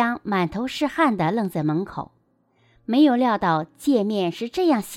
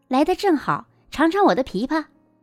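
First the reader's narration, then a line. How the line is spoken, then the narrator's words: Cheerful call. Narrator (Chinese): 云姨扭过脸欢快地叫道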